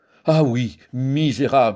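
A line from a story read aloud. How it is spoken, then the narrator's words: Exclaimed. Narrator (French): s'écria-t-il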